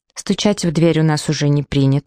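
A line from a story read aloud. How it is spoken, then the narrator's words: Plain. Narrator (Russian): спросила Майя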